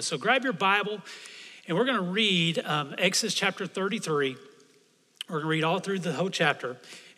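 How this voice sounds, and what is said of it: Hoarse, strained voice. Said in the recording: “I've been losing my voice”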